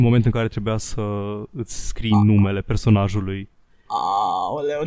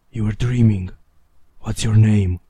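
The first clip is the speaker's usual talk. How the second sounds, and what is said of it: Raspy fantasy character voice. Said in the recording (Romanian): “în vocea lui răgușită”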